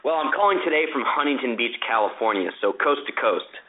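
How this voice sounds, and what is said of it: Slight New Jersey accent. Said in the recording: “I detect a little New Jersey accent there”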